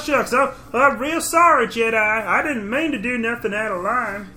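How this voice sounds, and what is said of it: Imitates another person's voice. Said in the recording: “accent ... It sounded like, who's that guy from Andy Griffith? ... Gomer Pyle”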